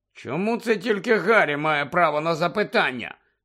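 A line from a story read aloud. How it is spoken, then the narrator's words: Angry addition. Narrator (Ukrainian): сердито додав Фред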